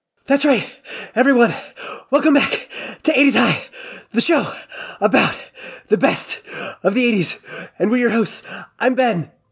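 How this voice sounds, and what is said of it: Out of breath. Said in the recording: “Is that why you're out of breath?”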